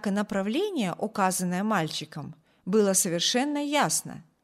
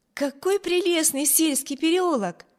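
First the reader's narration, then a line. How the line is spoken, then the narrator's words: Exclaiming. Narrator (Russian): воскликнула Эми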